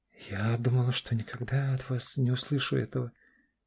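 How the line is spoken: Barely audible whisper. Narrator (Russian): чуть слышно прошептала Аня

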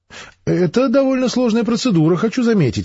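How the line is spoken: Offended reply. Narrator (Russian): обиженно ответил ученый

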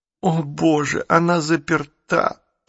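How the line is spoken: Girl moaning. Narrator (Russian): простонала девочка

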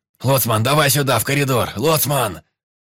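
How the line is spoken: Shouting. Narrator (Russian): кричал Клещ

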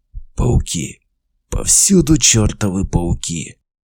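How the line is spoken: Hoarse. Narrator (Russian): прохрипел Зив

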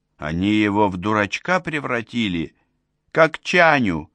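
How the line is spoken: Groaned. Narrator (Russian): простонал Глеб

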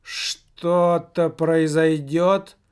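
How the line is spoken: Strange altered voice. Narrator (Russian): Все так же не своим голосом спросил Михалыч

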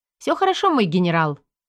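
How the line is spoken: Brisk cheerful report. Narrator (Russian): бодро отрапортовала я

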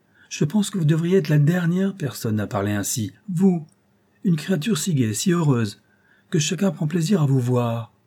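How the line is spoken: Exclaimed. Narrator (French): s'écria-t-elle

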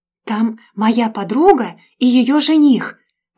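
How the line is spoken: Whispered shout. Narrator (Russian): прокричала я шепотом

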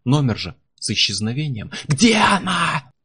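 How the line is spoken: Shouting. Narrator (Russian): Я заорал

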